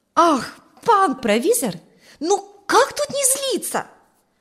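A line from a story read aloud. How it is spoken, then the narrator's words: Exclaiming near tears. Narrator (Russian): воскликнул чуть не плача ученик Ферка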